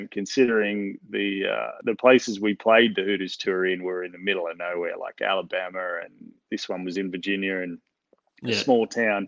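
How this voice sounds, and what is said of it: Australian accent. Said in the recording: “the accent went a long way in America back then ... never heard an Australian accent”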